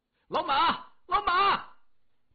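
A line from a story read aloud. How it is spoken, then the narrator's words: Loud shout. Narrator (Chinese): 老七大声喊着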